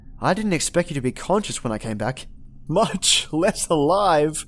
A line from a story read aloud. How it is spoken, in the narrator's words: he chuckled